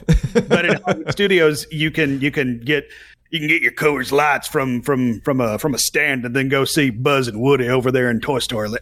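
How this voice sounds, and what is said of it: Put-on character accent. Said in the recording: “I don't know where this accent is coming from. ... Yeehaw. ... is this a character I'm working on?”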